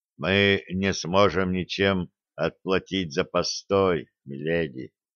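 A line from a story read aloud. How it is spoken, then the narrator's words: Quiet male voice. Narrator (Russian): Мужчина тихо произнес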